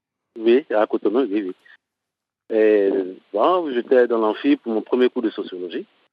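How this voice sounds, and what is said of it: Ivorian French accent. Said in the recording (French): “j'ai un accent ivoirien”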